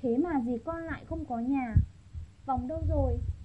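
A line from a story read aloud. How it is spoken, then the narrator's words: Muttering. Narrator (Vietnamese): Ông Chu Bân Lễ lẩm bẩm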